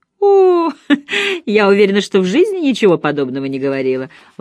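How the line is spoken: Laughing. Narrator (Russian): Лола засмеялась

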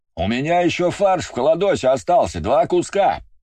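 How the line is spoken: Shout from another room. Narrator (Russian): прокричал из своей комнаты Иван

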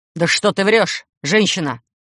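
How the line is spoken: Vampire's growl. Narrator (Russian): зарычал вампир

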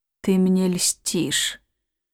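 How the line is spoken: Muffled, hollow. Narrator (Russian): сказал он глухо

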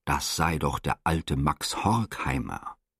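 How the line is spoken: Urgent low murmur. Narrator (German): raunte Herr Domingo nun fast beschwörend

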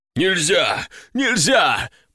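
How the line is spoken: Wheezing, gasping for air. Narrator (Russian): прохрипел хозяин, хватая ртом воздух

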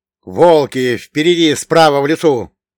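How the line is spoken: Shouted warning. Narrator (Russian): тут же крикнул я, предупреждая своих товарищей

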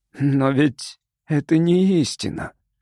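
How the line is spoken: Drawling, almost human voice. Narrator (Russian): протянул он почти человеческим голосом

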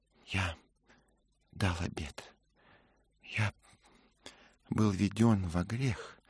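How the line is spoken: Muttered. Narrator (Russian): пробормотал Мэтчем

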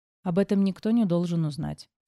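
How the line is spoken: Calm reply. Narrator (Russian): спокойно отозвалась я

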